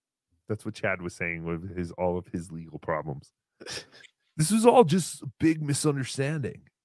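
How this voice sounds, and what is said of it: Usual voice. Nothing is said of it.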